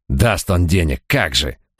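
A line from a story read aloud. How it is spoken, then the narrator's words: Growled. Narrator (Russian): прорычал Райт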